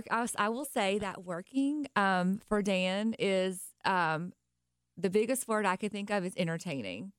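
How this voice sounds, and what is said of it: Slight Nashville country accent. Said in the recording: “I'm originally from Nashville ... Hear the accent a little bit. It's cute. It's super cute. ... I hear the extra country in there.”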